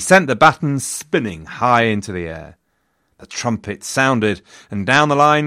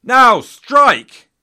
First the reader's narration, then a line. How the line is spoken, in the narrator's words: he roared